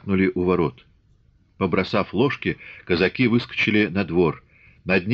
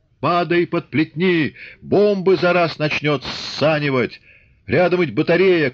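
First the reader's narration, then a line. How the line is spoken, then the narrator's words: Shouted. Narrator (Russian): крикнул Чубатый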